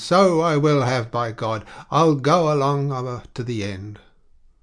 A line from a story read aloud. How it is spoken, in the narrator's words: cried the old man